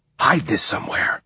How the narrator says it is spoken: he whispered

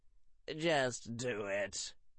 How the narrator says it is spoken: said Terry Boot in a weary voice

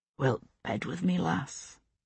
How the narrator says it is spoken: he said softly

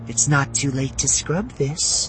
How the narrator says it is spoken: Shada murmured

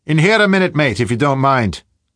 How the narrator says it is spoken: the barman's voice called out

